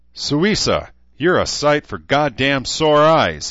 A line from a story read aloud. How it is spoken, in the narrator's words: he shouted